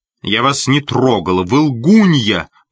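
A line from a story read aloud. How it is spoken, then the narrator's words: Angry shout. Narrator (Russian): покраснев от злости, крикнула Кэти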